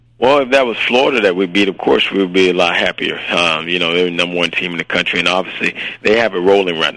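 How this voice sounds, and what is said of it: Hoarse voice from yelling. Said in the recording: “I don't know if that's his sexy voice or he just hoarse and he was yelling all night”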